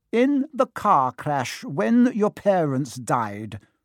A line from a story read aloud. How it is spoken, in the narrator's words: she had said